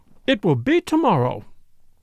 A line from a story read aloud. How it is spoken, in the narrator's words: said Flora in a clear voice